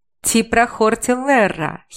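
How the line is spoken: Giggling. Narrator (Russian): хихикала я

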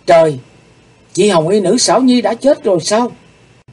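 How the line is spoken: Startled cry. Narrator (Vietnamese): Hắc Phụng Hoàng thẳng thốt kêu lên

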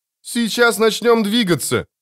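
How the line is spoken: Shouted. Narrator (Russian): крикнула Бобби

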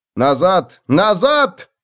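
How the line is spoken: Shouted. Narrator (Russian): крикнул

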